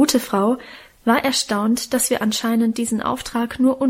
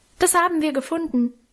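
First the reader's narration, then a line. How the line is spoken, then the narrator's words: Called out. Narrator (German): ich rief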